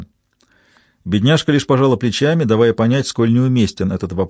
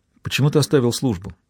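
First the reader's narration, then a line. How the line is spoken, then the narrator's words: Plain. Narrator (Russian): спросила она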